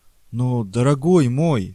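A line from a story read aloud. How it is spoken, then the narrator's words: Exclamation. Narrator (Russian): воскликнул Престо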